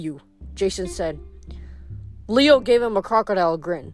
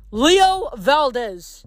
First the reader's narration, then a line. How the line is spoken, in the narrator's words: Coach Hedge yelled from the front